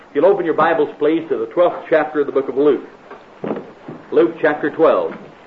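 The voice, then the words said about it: American accent. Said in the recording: “this American accent”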